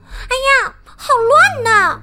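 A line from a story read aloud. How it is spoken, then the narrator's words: Shouting. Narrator (Chinese): 他嚷道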